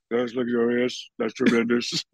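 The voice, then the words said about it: Imitates another person's voice. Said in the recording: “I got him to do Shaq Trump. He was doing Trump ... doing a Trump impression.”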